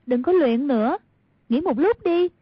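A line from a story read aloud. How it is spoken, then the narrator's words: Called out. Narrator (Vietnamese): bèn kêu lên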